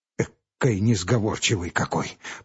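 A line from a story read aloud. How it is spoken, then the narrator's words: Muttering. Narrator (Russian): пробормотал купец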